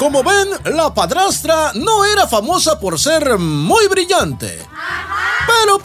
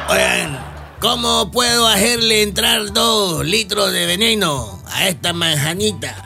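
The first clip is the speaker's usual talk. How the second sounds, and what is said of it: Old man character voice. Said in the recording (Spanish): “voz de hombre viejo”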